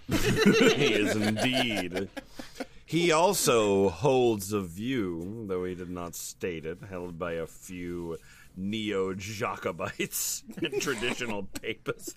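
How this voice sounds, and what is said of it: Put-on villain-style accent. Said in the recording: “you're using the wrong accent”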